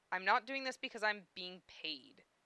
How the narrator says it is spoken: he spat

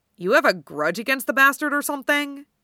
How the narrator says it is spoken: asking gruffly

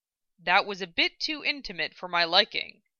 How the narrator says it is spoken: Mace grumbled

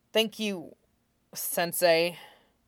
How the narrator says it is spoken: Shinzo said under his breath, a slight stutter to the title

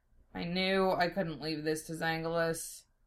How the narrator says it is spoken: grumbling to himself

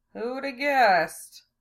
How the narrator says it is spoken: Lena murmured

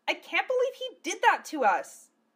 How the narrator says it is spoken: Phileas spat at nobody in particular

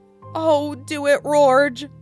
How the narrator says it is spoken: pleaded Shagwell

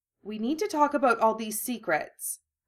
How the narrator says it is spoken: Hermione said firmly, not willing to back down

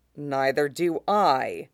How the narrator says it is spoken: Aline says dryly

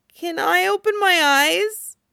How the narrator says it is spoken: Alicia asks, voice quavering

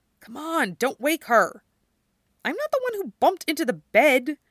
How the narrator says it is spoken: another voice hisses

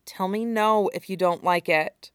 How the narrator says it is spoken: he murmured, tone more serious

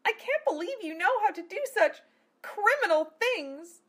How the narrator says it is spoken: Amelia cried

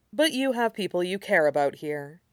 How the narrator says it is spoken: Shirong said evenly

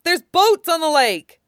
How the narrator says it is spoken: Wei Wuxian shouts

